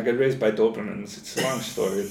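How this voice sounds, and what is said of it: Put-on German accent. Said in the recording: “I got a German accent.”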